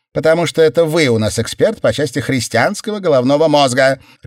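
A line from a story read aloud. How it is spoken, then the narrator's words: Barking snap. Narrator (Russian): рявкнула Мор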